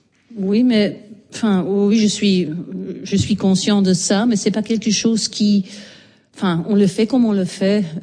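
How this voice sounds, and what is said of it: Strong Belgian French accent. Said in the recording (French): “Molière avec l'accent belge ... votre voix et votre accent ... c'est un fort accent”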